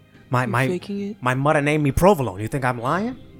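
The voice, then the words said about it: Put-on Italian accent. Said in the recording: “I lost my Italian accent somehow ... Are you faking your accent?”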